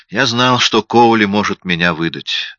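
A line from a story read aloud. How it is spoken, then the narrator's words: Weary. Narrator (Russian): сказал я устало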